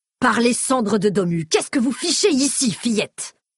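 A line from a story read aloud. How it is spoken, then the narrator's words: King's roar. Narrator (French): rugit le roi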